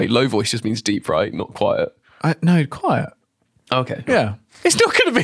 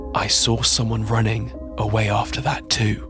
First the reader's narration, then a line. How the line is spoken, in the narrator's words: adding in a low voice